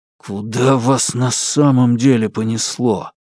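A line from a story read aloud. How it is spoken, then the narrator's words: Hiss through clenched lips. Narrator (Russian): прошипел Алексей, едва разжимая губы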